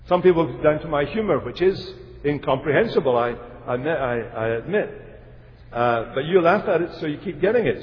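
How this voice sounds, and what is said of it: Speaks with a noticeable accent. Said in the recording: “I put it down to my accent that you don't understand.”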